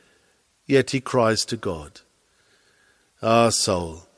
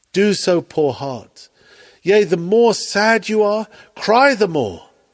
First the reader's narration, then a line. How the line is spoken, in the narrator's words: he cried